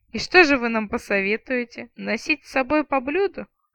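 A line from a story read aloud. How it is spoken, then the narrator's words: Chuckling retired officer. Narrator (Russian): хохотнул отставной тысячник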